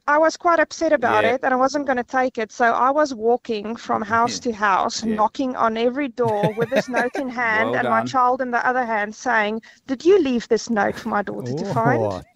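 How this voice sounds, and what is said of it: South African accent. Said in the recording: “Is that a South African accent? ... great ... Accent. ... Love it.”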